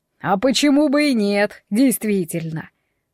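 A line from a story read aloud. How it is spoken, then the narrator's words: Snorting. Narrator (Russian): Водяной хмыкнул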